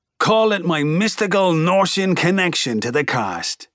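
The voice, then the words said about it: Put-on Norish brogue. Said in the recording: “I put on my best Norish brogue”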